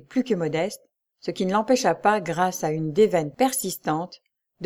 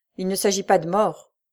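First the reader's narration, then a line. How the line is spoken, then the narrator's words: Muffled voice. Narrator (French): répondit le millionnaire d'une voix sourde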